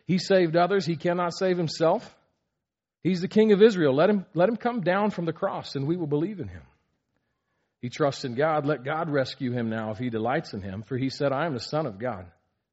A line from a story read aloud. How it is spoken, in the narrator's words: were mocking him and saying